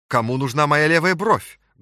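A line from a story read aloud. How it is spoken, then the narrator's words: Loud and cheerful. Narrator (Russian): громко и бодро сказал он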